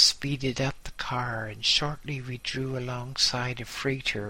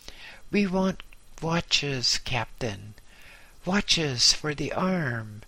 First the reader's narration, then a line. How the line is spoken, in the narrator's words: he bawled